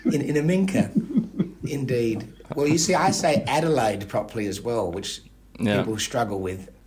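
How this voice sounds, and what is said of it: Adelaide accent with rounded vowels. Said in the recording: “my particular Adelaide accent ... You sound like everyone in Aminka does, you know, just their very rounded vowels.”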